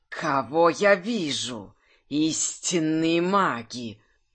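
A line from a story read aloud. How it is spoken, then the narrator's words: Snake-creature hissing. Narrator (Russian): прошипел змеинок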